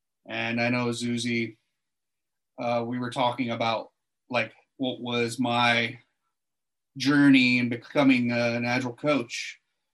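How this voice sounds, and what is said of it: American accent. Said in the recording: “you might be able to tell from my accent that I'm not an Aussie. I'm actually an American”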